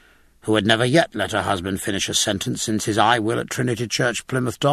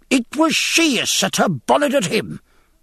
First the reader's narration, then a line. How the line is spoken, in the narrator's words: cried Mrs